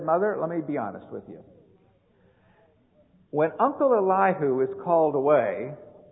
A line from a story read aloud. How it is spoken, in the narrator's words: he said